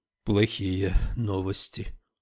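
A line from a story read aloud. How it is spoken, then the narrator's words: Very quiet. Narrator (Russian): очень тихо произнес ученый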